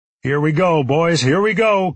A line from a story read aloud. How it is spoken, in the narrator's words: Cooper shouted